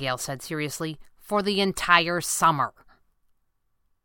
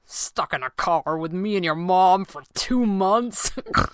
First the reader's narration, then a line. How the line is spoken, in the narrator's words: He laughed, and it came out as a little snort